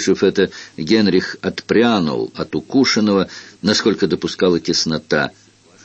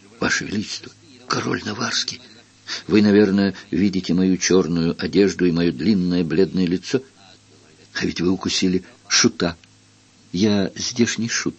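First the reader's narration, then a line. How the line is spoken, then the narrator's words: Faint moan, trusting whisper. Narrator (Russian): Он едва застонал, а потом проговорил доверчиво шепотом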